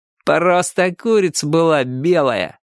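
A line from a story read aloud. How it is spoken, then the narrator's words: Mocking. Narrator (Russian): насмешливо сказал один из рыжиков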